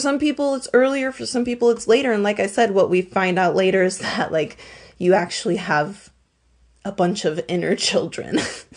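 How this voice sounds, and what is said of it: Raspy voice from a cold. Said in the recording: “I'm also recovering from a cold, guys. So if I sound a little raspy”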